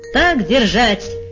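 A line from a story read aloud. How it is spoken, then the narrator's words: Cheerful shout. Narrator (Russian): весело крикнул пан Клякса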